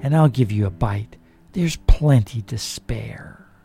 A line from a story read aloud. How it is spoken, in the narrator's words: she murmured